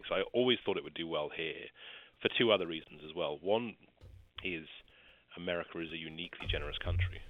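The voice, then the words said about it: Non-American accent. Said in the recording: “I know my accent betrays me”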